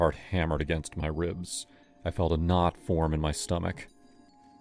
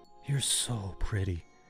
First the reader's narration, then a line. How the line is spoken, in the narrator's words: he whispered